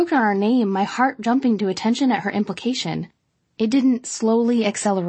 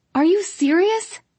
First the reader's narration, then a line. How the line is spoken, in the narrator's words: I cried incredulously